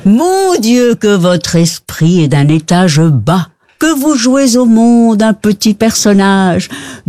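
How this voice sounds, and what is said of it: Put-on Belgian French accent. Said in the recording (French): “avec l'accent belge”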